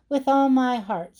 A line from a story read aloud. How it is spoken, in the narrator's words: said Tim